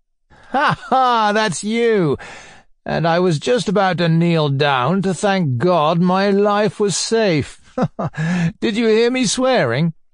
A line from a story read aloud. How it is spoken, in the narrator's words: he laughed in the most good-natured way